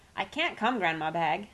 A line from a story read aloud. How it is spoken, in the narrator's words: cried